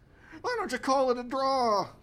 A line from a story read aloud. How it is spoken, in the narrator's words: cried the director of community services